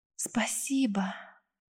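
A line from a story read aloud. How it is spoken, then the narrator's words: Soft babbling voice. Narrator (Russian): пролепетало тихим голосом прелестное создание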